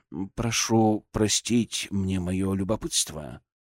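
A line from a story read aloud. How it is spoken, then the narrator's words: Soft. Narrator (Russian): мягко сказал Серебряков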